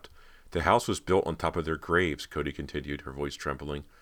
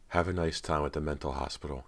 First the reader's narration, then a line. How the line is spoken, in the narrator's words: Callie said softly